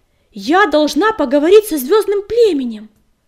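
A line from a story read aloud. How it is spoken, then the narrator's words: Angry barking. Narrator (Russian): рявкнула она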